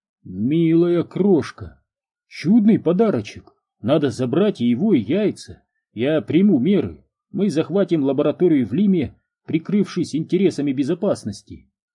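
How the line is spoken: Plain. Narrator (Russian): сказал Орон

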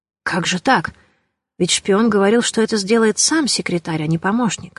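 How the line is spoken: Whispered question. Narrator (Russian): шепотом спросил Матюш у канцлера

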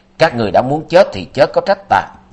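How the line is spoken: Loud shout. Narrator (Vietnamese): lớn tiếng quát

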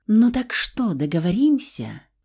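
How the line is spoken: Whispered. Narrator (Russian): прошептала я

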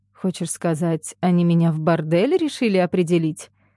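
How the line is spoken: Grim joke. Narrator (Russian): Мрачно пошутила Глафира

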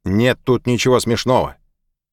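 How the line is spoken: Shout. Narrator (Russian): Маку крикнуть

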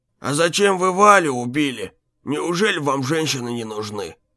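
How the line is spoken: Gloomy question, old man. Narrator (Russian): мрачно спросил его старик

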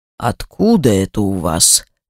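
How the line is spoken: Threatening tone. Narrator (Russian): говорит он угрожающим тоном

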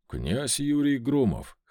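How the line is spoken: Wry snort. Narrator (Russian): хмыкнул я

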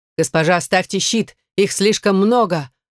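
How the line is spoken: Mentor shouting again. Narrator (Russian): наставник еще раз крикнул

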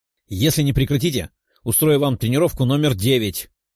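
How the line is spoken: Growled. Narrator (Russian): рыкнула она

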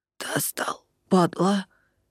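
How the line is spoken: Hoarse, wounded admission. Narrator (Russian): хрипло признал Лёха

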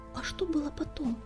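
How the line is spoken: Quiet question. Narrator (Russian): тихо спросила Белоснежка

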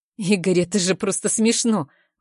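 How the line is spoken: Irritated retort. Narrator (Russian): бросаю раздраженно

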